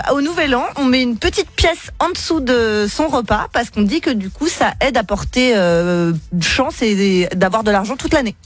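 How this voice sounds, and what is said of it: Belgian French accent. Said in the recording (French): “en Belgique, vous avez l'accent”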